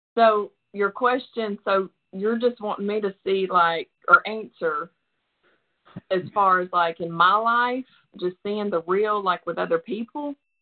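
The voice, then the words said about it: Southern US Bible Belt accent. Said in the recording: “We in the Bible Belt. I can tell from your accent. I don't know exactly where you're from, but you're close enough.”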